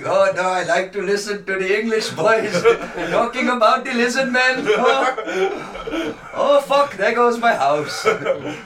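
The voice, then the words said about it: Put-on foreign accent. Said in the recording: “Sorry about the accent.”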